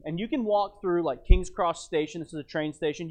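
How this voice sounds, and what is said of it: American accent. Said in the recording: “the obnoxious American. But you still can't hide this accent.”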